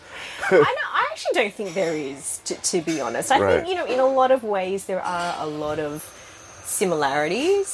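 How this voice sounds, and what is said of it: Australian accent. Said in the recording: “you can tell from my accent now... Very Australian. Very Australian... not just my accent. A lot of people comment on my accent.”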